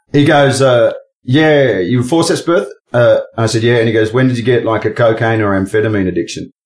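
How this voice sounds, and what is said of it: Australian accent. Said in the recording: “how Aussie do my accent get in”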